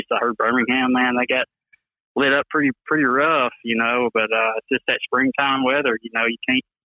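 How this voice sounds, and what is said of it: Thick Alabama Southern accent. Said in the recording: “that thick accent ... you Bama boys, yeah, man, y'all got a different language down there ... it sounds like you're from Alabama”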